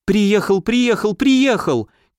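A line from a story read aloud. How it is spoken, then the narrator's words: Incantatory repetition, then sobbing. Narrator (Russian): Как заклинание несколько раз повторила, разрыдалась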